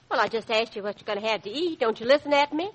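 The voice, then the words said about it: Texas accent. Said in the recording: “You sound like Texas.”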